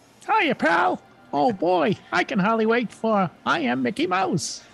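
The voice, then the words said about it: Mickey Mouse voice, Boston accent. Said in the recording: “I didn't know Mickey Mouse had a Boston accent.”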